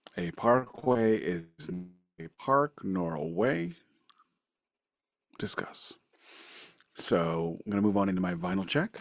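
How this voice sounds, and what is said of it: Calm public-radio announcer voice. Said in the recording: “doing my NPR voice”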